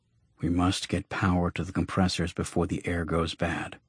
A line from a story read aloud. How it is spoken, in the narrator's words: He muttered